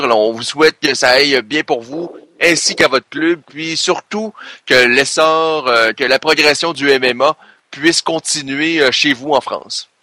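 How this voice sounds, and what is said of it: Québécois French accent. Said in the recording (French): “votre accent qui m'avait manqué ... votre belle province”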